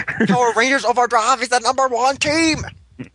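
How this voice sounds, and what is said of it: Singing in a put-on accent. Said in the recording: “What are you singing in an accent?”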